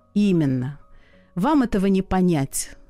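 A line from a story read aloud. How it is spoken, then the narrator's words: Regretful sigh. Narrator (Russian): с сожалением вздохнул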